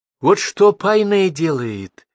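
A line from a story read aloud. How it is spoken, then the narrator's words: Joyful proclamation. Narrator (Russian): радостно провозгласил башлык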